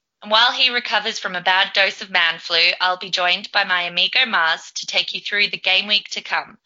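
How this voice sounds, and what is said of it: Feminine voice, slight Australian accent. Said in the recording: “a more feminine, slightly Aussie accent.”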